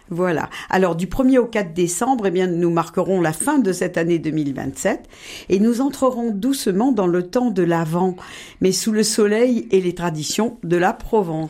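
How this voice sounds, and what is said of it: Provençal Marseille French accent. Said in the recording (French): “vous êtes provençale et marseillaise. Votre accent vous trahit.”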